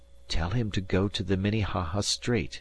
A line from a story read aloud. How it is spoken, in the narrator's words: he whispered